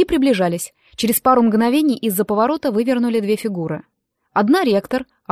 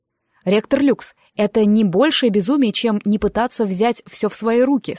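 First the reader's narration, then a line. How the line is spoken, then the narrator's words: Plain. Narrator (Russian): сказал он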